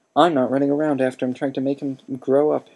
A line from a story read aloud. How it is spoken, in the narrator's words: Harry said so loudly